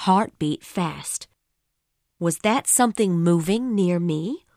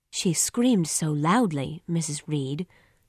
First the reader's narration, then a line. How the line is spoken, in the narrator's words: said Bessie softly